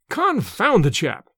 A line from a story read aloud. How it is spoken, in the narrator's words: cried Smith